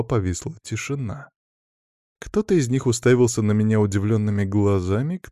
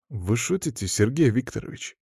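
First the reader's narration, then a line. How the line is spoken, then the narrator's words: Serious voice. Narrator (Russian): серьезным голосом произнес Саня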